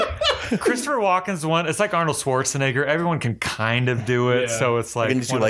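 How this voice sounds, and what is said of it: Usual voice. Nothing is said of it.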